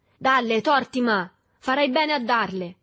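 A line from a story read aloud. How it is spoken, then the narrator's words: Many voices shouting. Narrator (Italian): gridarono da più parti varie voci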